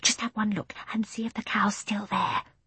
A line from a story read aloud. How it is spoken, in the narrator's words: said Jane in a careful whisper